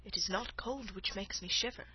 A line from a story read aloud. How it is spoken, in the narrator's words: said the woman, in a low voice